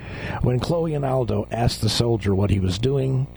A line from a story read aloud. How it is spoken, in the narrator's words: he replied sarcastically